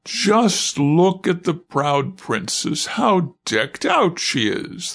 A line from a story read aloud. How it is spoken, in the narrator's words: they cried and laughed